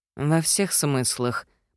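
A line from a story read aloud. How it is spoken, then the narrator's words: Mother muttering to herself. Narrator (Russian): пробормотала себе под нос мама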